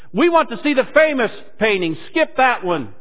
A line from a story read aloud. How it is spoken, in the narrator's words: a voice in the back of the room shouted